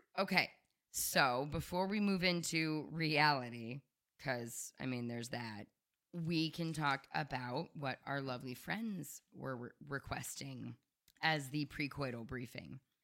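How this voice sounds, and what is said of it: Hoarse, strained, failing voice. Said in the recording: “losing my voice again”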